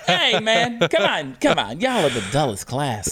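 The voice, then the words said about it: Imitates another person's voice. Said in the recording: “my Biden impersonation”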